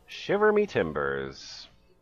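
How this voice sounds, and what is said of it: Pirate voice. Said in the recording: “Should I do the pirate voice or just read it straight?”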